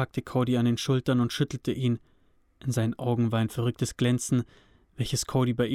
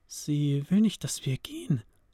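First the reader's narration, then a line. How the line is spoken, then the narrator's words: Quiet dawning realization. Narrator (German): sagte Rebecca leise, der anscheinend etwas klar geworden war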